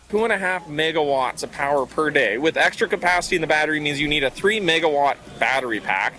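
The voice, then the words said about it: Canadian accent. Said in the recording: “you'll recognize his accent because it's from Canada.”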